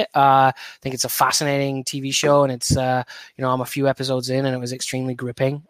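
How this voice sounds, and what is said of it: British accent. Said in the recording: “as you can probably almost tell from my accent, I'm from the UK”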